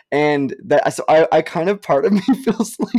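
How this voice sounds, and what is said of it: Usual voice. Nothing is said of it.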